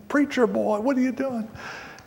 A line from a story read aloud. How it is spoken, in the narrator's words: laughing and teasing